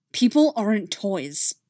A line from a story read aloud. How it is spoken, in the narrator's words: he replied, his voice low and angry